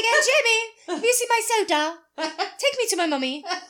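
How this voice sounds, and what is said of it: Put-on British accent. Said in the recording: “And he's British, so it was ... Why he has a British accent”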